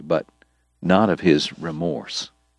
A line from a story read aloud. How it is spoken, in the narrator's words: Doc told him quietly